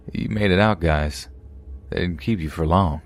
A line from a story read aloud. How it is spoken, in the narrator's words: He chuckled and said